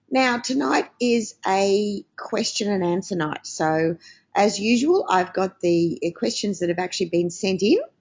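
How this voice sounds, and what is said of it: Congested voice from a cold. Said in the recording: “sorry, I've got a little bit of a cold.”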